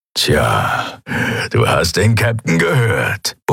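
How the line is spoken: Grumbled. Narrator (German): brummte er

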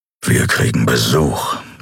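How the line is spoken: Growling. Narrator (German): knurrte er

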